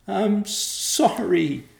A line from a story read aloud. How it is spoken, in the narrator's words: wailed